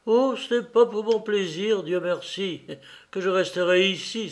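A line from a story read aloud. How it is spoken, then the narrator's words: Exclaimed. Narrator (French): s'écria-t-elle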